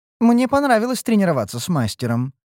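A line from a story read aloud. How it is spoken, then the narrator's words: Snide remark. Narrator (Russian): ехидно подметила ушастая гадина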